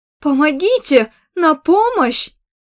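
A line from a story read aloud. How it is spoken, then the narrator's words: Screaming for help. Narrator (Russian): закричала жертва грабежа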